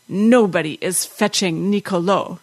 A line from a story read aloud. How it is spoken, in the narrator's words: said, her voice husky with rage